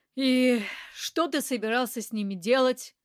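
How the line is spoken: Weary question. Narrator (Russian): Устало спросил Растегаев

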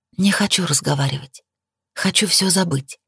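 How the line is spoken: Whisper. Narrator (Russian): прошептала я

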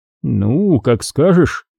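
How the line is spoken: Grumble. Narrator (Russian): пробурчал Олтман

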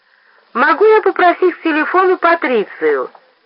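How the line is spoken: Sung in thin voice. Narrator (Russian): пропел он тоненьким голоском

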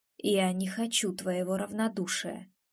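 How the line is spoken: Quiet speech. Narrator (Russian): тихо произносит Антон

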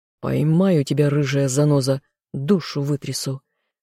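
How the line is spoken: Inner growl. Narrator (Russian): рычал мысленно

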